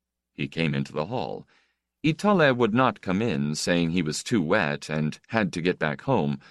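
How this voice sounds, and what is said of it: Usual voice. Nothing is said of it.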